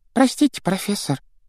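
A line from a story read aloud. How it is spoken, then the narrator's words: Squeaky. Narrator (Russian): пропищала Парвати Патил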